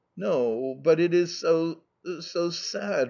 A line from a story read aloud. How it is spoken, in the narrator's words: replied Mamma, her voice trembling with emotion